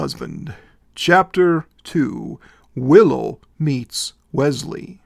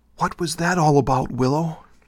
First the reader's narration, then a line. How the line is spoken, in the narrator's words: Kira leaned close to Willow and whispered